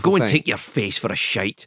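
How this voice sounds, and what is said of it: Put-on Scottish accent. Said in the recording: “It's not as good without the Scottish accent. ... See, that's so much better.”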